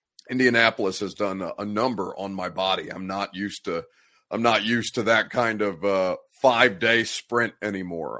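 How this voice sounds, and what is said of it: Congested, nasal, stuffy voice. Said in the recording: “I sound snotty. ... I sound congested. ... I sound miserable. ... I'm tired of the sound of my own voice”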